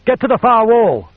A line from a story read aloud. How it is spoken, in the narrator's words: he shouted